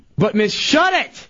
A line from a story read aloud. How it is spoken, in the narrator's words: yells